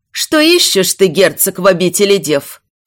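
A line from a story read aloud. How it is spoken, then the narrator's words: Resonant female voice. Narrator (Russian): Звучным голосом продолжила диалог мать Альциона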